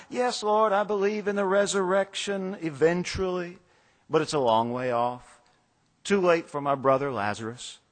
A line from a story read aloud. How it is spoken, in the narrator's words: she said with a sigh